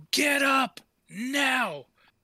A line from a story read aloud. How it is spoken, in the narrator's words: Jeffrey yell